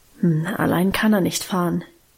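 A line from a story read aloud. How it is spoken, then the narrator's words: Murmured. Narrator (German): murmelte sie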